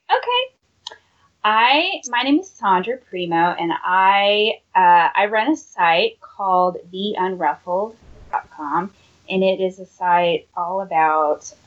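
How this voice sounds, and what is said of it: Southern American drawl. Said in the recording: “I have the southern drawl”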